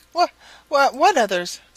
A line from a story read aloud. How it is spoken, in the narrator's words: stammered Chatterer